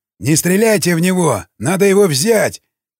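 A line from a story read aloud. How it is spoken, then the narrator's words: Shout. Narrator (Russian): крикнул он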